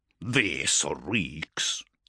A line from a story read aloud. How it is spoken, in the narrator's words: snarled Bryngar, who had begun prowling the bridge with impatience